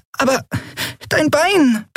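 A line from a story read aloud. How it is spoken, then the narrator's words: Squeaked. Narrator (German): piepste Nelen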